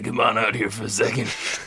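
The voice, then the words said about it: Grizzled voice imitating Captain Ripley. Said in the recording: “he's just got like this like grizzled voice ... Great impression.”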